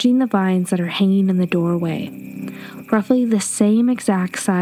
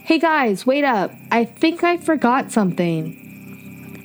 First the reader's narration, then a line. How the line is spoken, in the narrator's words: yell